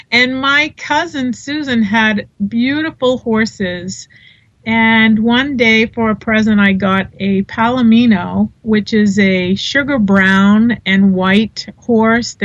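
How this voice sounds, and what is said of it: Boston accent. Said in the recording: “I grew up in Boston. You can probably hear the accent. ... Oh, we certainly can”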